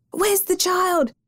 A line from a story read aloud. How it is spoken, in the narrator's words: cried